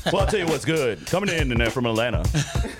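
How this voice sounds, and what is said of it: Radio announcer voice. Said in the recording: “give him that radio voice”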